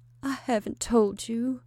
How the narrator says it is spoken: moaned Sarah weakly

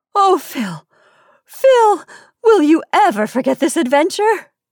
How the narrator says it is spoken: She gasped

